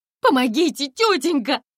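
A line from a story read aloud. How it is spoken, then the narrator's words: Screamed even louder. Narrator (Russian): Еще громче закричала Комарова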